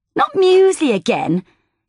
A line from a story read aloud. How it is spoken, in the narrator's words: spat, with true contempt which only seven-year-olds can muster